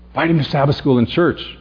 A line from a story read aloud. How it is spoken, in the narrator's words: Alan pleaded